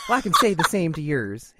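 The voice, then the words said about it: Put-on character accent. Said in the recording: “I'm laughing at the accent ... Don't you laugh at my accent.”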